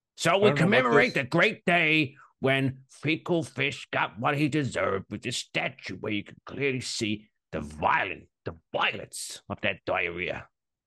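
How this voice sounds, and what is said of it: Unidentified put-on accent, old storyteller. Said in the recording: “I don't know what this accent is, but it's got a fluffy beard, it's got some bifocals, and it's got a pipe as it's exclaiming and pointing to the children with every inflection”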